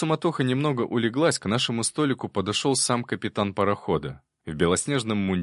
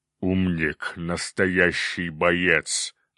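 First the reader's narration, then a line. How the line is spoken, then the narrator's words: Approving growl, cyclops. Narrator (Russian): одобрительно прорычал циклоп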